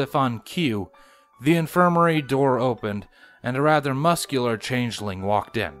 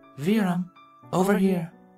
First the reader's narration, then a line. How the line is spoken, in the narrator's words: Chrysalis softly summoned